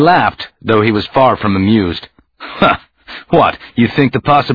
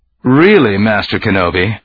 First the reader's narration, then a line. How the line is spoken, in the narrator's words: he said dryly